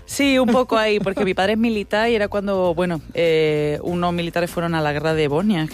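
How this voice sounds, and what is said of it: Andalusian Spanish accent. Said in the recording (Catalan): “té un aquest accent andalús ... de Granada”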